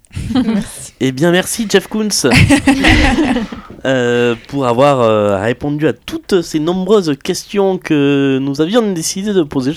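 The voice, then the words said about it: Impression of Jean-Michel Aphatie's accent. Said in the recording (French): “je prends l'accent de Jean-Michel Apathy”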